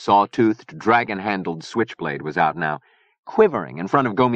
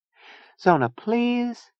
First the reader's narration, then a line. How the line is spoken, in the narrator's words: Chia begged